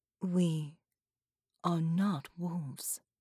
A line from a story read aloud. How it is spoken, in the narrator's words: said softly